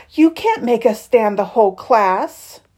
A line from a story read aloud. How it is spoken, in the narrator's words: Claire moaned